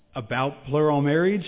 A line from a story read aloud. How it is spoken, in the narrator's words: I asked